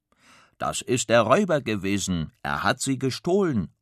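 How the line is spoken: Calling out. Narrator (German): ruft Kasperl

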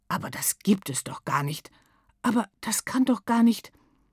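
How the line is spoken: Murmuring. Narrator (German): murmelt einer

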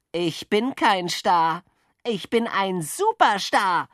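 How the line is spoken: Called out. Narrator (German): rief Jockel, der immer und überall der Beste sein wollte

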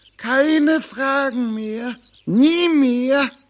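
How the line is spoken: Whining. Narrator (German): jammerte Piggeldi

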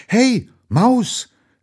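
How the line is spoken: Excited call after. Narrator (German): rief sie noch aufgeregt hinterher

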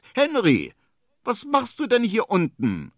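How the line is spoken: Rabbit, plain. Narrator (German): sagt das Kaninchen

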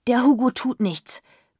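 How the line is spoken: Panting. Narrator (German): keuchte Urania

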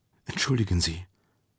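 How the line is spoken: Female whispering. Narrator (German): flüsterte sie

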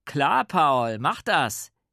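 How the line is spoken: Called after. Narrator (German): rief nach

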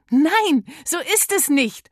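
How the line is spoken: Call. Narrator (German): ruft Miller

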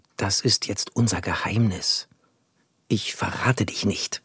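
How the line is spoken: Whispered. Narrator (German): flüsterte Max

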